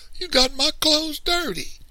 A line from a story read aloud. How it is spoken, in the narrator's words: Little man wailed